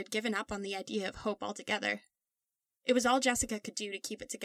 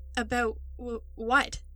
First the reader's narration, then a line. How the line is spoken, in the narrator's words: Jack stuttered again